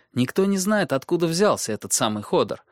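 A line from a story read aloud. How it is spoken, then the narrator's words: Plain. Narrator (Russian): сказала она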